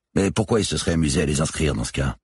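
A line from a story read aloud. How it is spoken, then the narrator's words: Plain. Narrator (French): demanda Ménez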